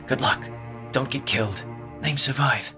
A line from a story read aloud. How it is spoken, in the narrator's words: whispered Vig